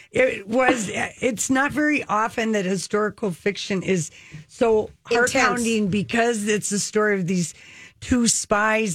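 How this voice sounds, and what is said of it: Minnesota accent. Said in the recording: “in your fabulous accents, by the way. ... Can you hear the Minnesota?”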